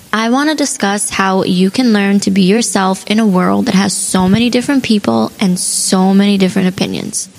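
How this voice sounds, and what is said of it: Raspy, fading voice. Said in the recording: “my voice is raspy. I'm catching a little bit of a cold and I'm losing my voice”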